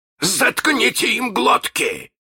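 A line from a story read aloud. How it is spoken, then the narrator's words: Barked. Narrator (Russian): рявкнул Крюк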